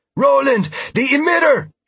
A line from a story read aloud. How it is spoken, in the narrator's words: she shouted